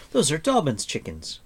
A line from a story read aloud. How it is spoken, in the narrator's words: cried Taran